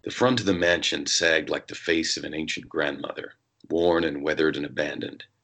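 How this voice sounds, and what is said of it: Put-on American accent reading narration. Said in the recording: “I'm actually going to do an American accent ... I kind of always picture Fetch with an American accent ... I'll drop into a little bit of my Fetch mode”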